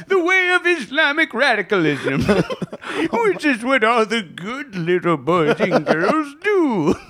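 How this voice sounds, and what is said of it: Santa Claus character voice. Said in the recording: “in a Santa voice”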